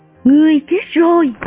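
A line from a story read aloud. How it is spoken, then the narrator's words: Sudden cry. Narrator (Vietnamese): Maria kêu thốt lên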